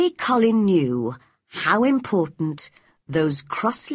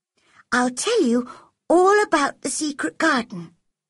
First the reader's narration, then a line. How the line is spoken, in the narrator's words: whispered Mary